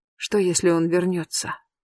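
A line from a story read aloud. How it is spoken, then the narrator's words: Quiet question. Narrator (Russian): тихо спрашиваю я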